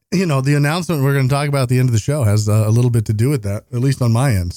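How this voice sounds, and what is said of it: Slightly sick, under-the-weather voice. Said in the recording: “I don't know if you could tell from my voice. I certainly can, that I am still a little bit under the weather ... coughing”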